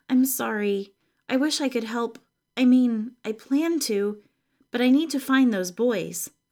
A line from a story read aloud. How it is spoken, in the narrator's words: Claudia said